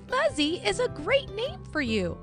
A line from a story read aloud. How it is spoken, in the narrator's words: Marshall exclaimed